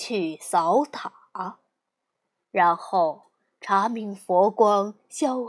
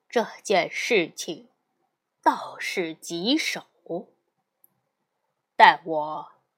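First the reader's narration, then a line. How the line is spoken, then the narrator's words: Sighing. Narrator (Chinese): 唐僧闻听此言，叹息，说道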